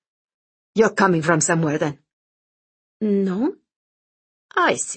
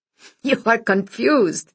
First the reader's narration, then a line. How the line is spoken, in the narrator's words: Vito chuckled